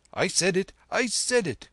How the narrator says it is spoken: cried the bearer of that burden

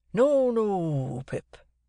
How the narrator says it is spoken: said Joe, in a comfortable tone

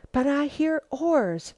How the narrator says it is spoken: she whispered hoarsely

